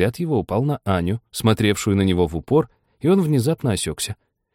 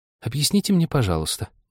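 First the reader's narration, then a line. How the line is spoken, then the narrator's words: Timid question. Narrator (Russian): робко спросила Аня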